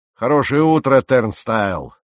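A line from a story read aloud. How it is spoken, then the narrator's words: Loud and cheerful. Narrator (Russian): громко и весело прибавил он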